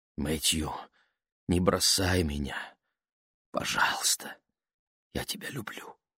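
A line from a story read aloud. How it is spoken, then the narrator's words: Whisper. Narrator (Russian): прошептала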